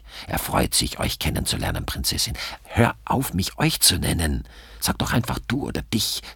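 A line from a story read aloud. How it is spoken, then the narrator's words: Hissed. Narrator (German): zischt Gabriele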